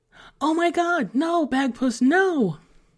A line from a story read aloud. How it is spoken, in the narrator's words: Emily cried out behind him